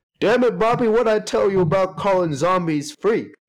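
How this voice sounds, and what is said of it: Hank Hill cartoon voice impression. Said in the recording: “trying to do a Hank Hill voice.”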